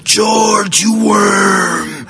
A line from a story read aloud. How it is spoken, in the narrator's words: a screeching voice of the old greedy woman